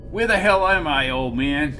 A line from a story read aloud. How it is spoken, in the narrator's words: He shouted